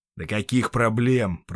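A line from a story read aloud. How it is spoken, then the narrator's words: Grumbled. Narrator (Russian): пробурчал ирландец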